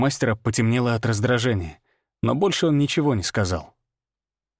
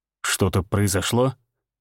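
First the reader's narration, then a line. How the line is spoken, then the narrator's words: Asked quietly. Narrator (Russian): тихо спросил Всеволод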